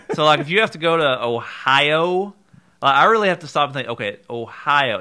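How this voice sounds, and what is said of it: Eastern Kentucky accent. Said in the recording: “being from Eastern Kentucky ourselves ... Our Eastern Kentucky accent ... those short I sounds, like that's the dead giveaway”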